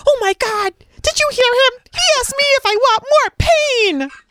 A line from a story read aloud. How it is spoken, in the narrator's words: the kid was yelling at his coach